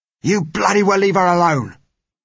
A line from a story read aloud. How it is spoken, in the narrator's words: roared the man who held her